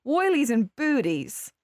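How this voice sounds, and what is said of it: Put-on Australian accent. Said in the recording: “Have to say it in that ... Australian ... accent, ... hard for me to say it in an American accent ... Only read it on in Australian.”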